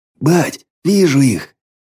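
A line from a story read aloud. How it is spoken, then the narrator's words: Sudden breathless exclamation. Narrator (Russian): вдруг выдохнул Паленый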